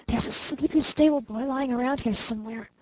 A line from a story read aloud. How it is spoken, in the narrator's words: she whispered